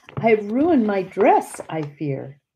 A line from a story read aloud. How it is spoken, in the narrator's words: cried